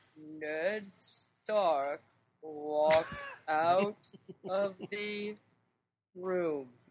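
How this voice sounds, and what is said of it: Slow, flat, unemotional narrator voice. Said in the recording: “Here's my impersonation. ... That's your British accent? ... Like the most slow-talking, unemotional reader on the planet.”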